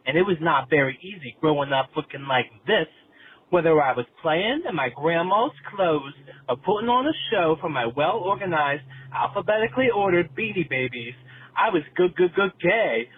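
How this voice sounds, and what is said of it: New York City accent. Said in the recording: “As you can tell from my accent, I am from the East Village, NYC, baby.”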